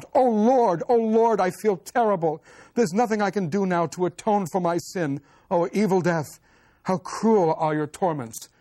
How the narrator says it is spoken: Boris yells out

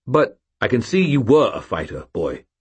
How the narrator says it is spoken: Stuart said, his voice harsh

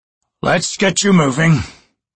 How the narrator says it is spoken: Ducek growled

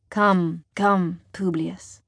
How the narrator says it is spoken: Daxo purrs

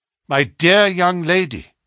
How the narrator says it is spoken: cried Holmes earnestly

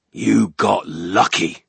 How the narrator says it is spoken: the ogre growled

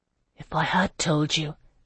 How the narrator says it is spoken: Alcuin whispered

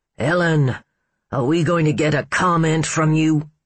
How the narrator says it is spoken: he barked

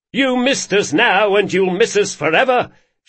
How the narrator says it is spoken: shouted Galdo

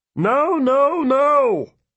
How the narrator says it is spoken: another voice shouted

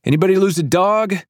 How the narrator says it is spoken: I yell down to the sidewalk

